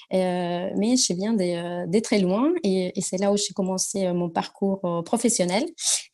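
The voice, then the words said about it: Slight Argentine accent in French. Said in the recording (French): “mon petit accent ... je suis argentine”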